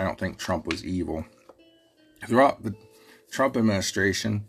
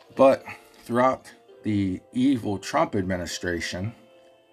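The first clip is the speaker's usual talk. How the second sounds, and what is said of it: Sarcastic delivery. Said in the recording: “that was sarcasm”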